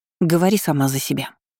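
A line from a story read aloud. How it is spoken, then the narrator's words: Sharp interruption. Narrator (Russian): резко оборвала ее Дебора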